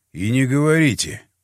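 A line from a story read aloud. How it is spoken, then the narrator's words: Sighing. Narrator (Russian): вздохнул я в ответ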